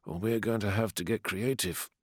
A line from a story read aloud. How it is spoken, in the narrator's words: muttered Ashul